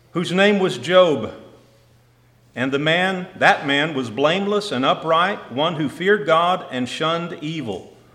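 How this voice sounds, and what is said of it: Southern Texas accent. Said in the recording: “my southern Texas accent”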